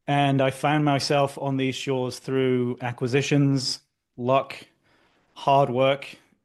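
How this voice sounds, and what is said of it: British accent. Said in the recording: “as you can tell from the accent... I grew up in the UK”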